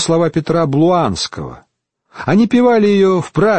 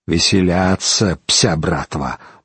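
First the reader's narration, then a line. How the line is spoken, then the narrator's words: Grumbled. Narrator (Russian): буркнул Тассила де Тресков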